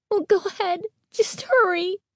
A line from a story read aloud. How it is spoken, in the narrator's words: Carly Beth pleaded